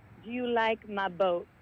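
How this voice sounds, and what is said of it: Puts on a different accent. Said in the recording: “I went into like a different kind of accent”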